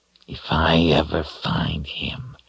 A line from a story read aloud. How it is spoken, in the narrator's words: Brophy growled fiercely